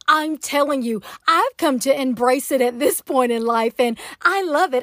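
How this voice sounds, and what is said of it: Southern American accent. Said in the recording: “I am from Atlanta, Georgia. Can you tell? I am a true Southern Belle... my accent”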